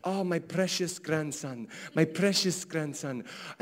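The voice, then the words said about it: Attempted Egyptian accent. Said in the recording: “I can't do an Egyptian accent, but I'm going to try”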